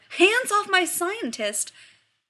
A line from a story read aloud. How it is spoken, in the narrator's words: John's about to yell